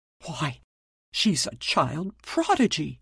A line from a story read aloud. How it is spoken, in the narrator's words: gasped the astounded father